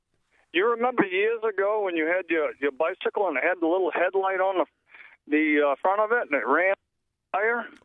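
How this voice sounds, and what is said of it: Maine accent. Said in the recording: “You've got a great accent. I love that Maine accent.”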